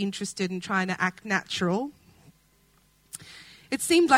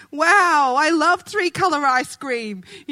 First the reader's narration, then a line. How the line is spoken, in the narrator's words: he shouted